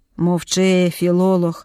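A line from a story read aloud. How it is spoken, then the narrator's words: Calm. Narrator (Ukrainian): спокійно відповів Макар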